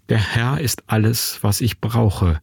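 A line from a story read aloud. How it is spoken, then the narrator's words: Fearful murmur to oneself. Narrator (German): raunte ich vor mich hin, gegen die Angst ankämpfte, die in mir hochkroch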